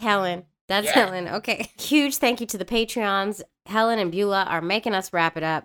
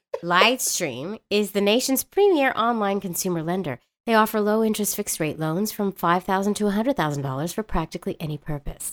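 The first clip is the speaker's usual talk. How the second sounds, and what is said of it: Announcer-style radio voice. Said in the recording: “Did you like that radio voice? That was good”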